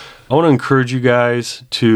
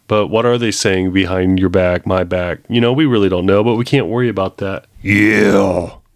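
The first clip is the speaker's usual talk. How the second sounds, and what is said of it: Imitates another person's voice. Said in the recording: “my Hodge Twins impersonation”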